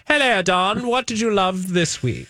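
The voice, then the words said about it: Exaggerated obnoxious British accent. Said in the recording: “You have to do it in a really obnoxious British accent”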